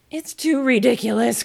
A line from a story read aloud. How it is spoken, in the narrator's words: cried Alice, losing all her patience this time